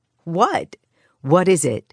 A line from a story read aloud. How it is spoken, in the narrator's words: Sarah asked, half laughing at his frantic search of the room